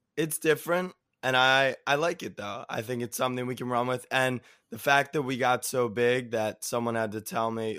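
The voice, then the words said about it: Slightly hoarse voice. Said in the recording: “you can hear my voice almost. I'm a little hoarse. ... now you don't sound too hot”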